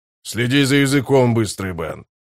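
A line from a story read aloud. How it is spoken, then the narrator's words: Growling starling. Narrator (Russian): прорычал скворец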